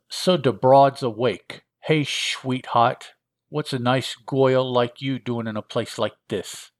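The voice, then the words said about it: Character voice with a funny accent. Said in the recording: “He speaks funny, or it speaks funny... I'm sorry about the accent.”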